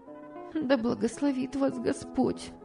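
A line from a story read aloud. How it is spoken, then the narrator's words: Young woman, plain. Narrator (Russian): сказала молодая женщина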